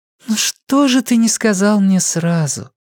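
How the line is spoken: Soft question. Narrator (Russian): мягко спросила она

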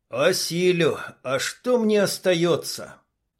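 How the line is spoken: Hollow muffled reply. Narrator (Russian): глухо ответил Дима

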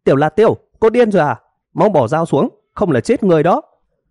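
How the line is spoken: Group shouting. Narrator (Vietnamese): Những người khác hét ầm lên

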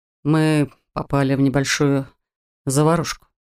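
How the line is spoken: Plain. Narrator (Russian): сказал он

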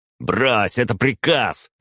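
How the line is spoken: Barked order. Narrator (Russian): рявкнул огневик

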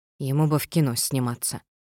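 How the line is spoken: Mumbling. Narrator (Russian): пробормотала

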